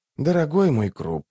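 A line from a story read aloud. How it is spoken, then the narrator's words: Sigh. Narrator (Russian): вздохнул Барук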